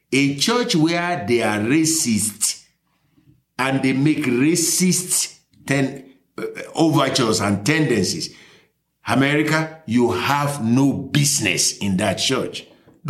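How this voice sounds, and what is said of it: Foreign, non-American accent. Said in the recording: “my accent doesn't feel as if I was born here”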